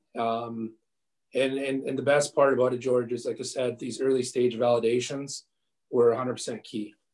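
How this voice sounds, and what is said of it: Hoarse, fading voice. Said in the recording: “I'm losing my voice, as you can tell.”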